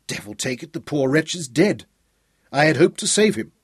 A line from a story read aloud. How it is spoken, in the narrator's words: he exclaimed with chagrin